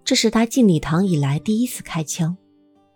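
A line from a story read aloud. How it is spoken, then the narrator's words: Low voice. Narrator (Chinese): 马修 低声说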